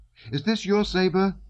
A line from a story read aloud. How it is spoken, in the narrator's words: he shouted